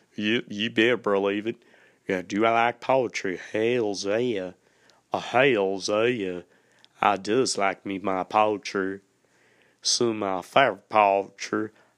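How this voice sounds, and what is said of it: Exaggerated put-on folksy accent. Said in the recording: “you might hear my accent, just really digging on in there ... y'all gonna hear me just really digging on in that there accent.”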